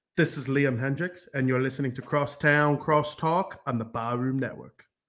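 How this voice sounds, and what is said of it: Australian accent impression. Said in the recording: “a good Australian impression ... That's not bad.”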